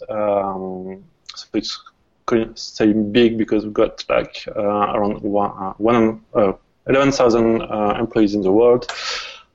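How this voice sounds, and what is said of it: French accent. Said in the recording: “I'm calling from France, so I hope you'll get used to my accent.”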